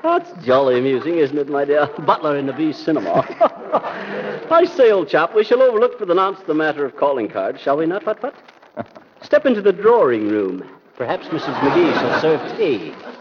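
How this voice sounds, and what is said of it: Put-on posh English accent. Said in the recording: “I don't see what the English accent has to do with it, but it's probably just his idea of elegance”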